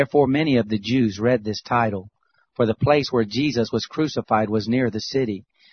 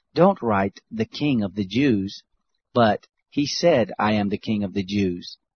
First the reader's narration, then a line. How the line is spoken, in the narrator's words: Pilate answered